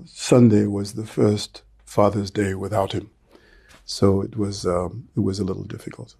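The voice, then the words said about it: Emotional, choked-up voice. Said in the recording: “I'm going to get a little emotional here.”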